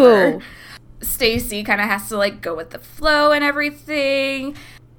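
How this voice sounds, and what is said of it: Usual voice. Nothing is said of it.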